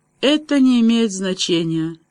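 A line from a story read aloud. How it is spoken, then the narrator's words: Flat colorless voice. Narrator (Russian): бесцветным голосом ответила девушка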